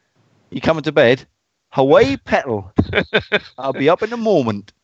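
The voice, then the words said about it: Put-on Geordie accent. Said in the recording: “your Geordie accent or your accent honing skills”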